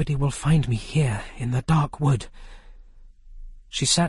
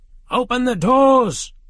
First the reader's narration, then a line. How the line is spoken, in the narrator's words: he shouted